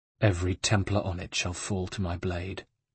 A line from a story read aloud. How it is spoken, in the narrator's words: said Ezio, evenly